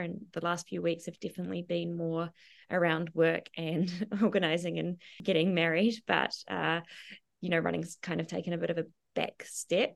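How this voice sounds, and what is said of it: Voice still showing a lingering cold. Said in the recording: “got hit pretty hard with a bad cold ... if you can probably tell in my voice, it's still somewhat lingering”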